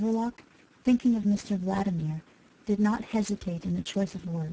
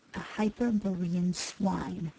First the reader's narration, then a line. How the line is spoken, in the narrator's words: he hissed forcibly